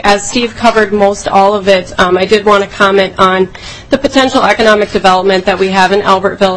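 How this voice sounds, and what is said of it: Congested voice with a cold. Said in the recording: “I have a bit of a cold,”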